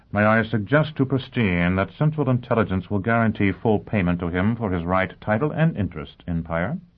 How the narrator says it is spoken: Yang Yovel murmured

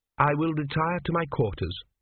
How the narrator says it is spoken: said Tepik coldly

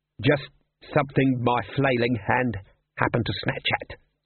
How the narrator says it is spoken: said Glod

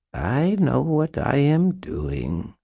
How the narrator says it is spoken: Mab purred

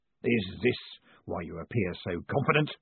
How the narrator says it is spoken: snarled Guilt

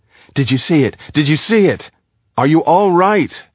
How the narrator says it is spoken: Ender shouted

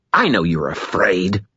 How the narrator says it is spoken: spat

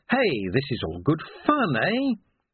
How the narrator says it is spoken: Carsa's little laugh that said

